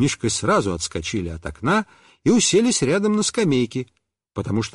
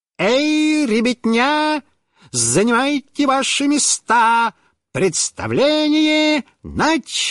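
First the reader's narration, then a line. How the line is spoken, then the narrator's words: Mock circus voice. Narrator (Russian): сказал нарочным цирковым голосом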